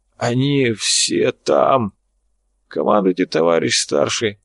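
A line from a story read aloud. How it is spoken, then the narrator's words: Hoarse wheeze. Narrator (Russian): прохрипел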